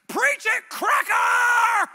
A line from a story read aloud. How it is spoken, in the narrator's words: he shouted from the third row as loud as he could